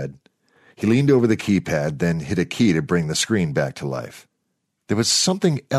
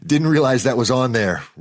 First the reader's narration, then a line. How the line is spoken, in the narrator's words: Rory said, laughing nervously